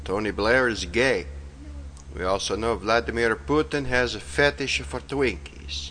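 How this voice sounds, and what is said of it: Silly put-on accent. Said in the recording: “in this stupid accent”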